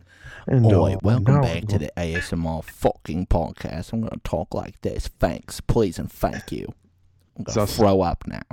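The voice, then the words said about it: Put-on Cockney accent. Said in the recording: “What if you did ASMR with a Cockney accent?”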